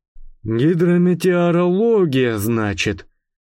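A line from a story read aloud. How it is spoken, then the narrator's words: Drawn-out drawl. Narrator (Russian): протянул сержант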